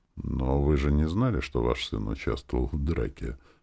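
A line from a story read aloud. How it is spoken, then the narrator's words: Gentle. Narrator (Russian): мягко сказал Белов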